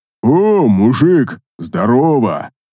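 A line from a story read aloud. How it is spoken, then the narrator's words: Deep voice after pause. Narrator (Russian): пробасил Эйс Вентура после небольшой задержки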